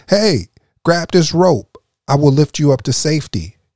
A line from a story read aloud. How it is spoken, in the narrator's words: the pilot shouted down